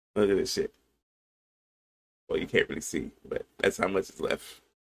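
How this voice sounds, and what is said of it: Raspy voice. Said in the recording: “I feel fucking terrible, you know? You can probably hear it in my fucking voice... You got the raspy.”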